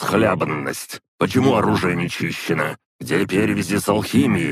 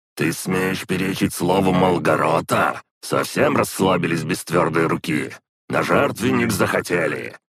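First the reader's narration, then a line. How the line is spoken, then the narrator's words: Growling. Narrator (Russian): Зарычал в лицо одному из демонов Тагай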